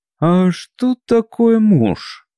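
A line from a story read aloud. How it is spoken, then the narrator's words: Timid question. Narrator (Russian): та, что была подружелюбней, нарушила молчание и робко спросила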